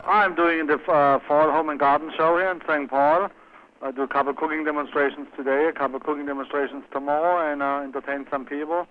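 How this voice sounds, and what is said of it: Strong accent like Arnold Schwarzenegger. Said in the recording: “lay off the accent a little bit ... you sound kind of like Arnold Schwarzenegger ... He's from Austria, but we are only probably 80 miles apart”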